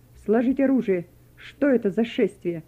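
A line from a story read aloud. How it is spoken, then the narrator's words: Stern command. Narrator (Russian): один из них строго скомандовал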